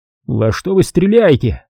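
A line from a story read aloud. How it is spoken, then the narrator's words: Shouted. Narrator (Russian): крикнул Малко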